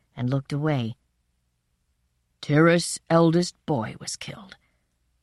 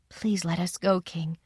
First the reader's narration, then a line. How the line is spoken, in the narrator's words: she murmured to my father